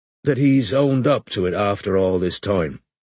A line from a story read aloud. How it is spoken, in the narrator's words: said Strike, evenly